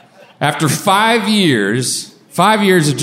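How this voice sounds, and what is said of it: Usual voice. Nothing is said of it.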